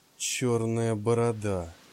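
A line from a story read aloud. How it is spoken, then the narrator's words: Worried mumble. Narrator (Russian): пробормотал он про себя, не на шутку забеспокоившись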